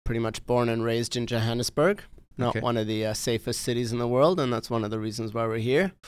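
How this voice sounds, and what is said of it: Non-local foreign accent. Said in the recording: “I hear an accent, so it tells me that you probably weren't originally from Vancouver ... it doesn't sound like a Vancouver Island accent”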